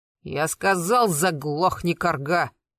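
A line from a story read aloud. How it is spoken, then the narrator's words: Angry raised voice. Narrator (Russian): Карпов злобно повысил голос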